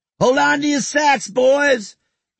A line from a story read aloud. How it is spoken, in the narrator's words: yelled Lulu